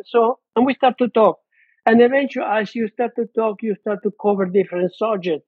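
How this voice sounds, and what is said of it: Speaks with a foreign accent. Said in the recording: “you have an accent. Where you come from?”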